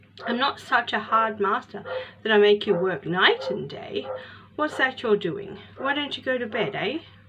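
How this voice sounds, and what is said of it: Gruff old man's voice. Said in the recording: “almost kindly in his gruff voice”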